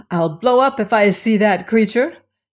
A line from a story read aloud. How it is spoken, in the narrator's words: She exclaimed in a kind of subdued shout